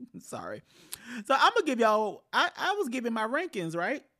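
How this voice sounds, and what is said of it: Usual voice. Nothing is said of it.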